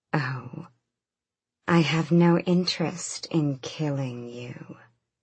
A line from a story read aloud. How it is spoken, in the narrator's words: Maeve purred